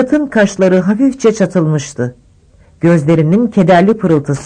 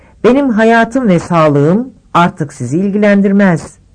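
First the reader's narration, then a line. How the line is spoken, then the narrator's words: Plain. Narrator (Turkish): dedi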